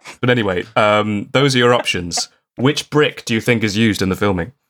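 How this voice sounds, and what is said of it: Usual voice. Nothing is said of it.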